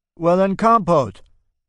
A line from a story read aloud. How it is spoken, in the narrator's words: I shout after him